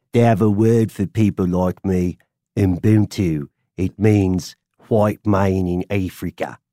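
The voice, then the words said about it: Put-on South African accent. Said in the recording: “My favorite Afrikaner or South African accent is Leonardo DiCaprio ... the accent is so terrible that I did a pretty good job of what Leonardo DiCaprio is doing”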